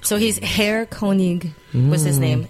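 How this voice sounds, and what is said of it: Put-on German accent. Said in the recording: “He's doing a German accent.”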